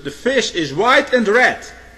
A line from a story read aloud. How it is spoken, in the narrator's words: shouted